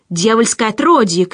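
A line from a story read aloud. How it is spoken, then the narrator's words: Shout from crowd. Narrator (Russian): крикнул кто-то в толпе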